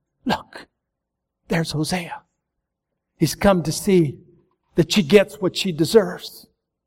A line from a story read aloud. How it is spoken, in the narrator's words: the whisper of the people saying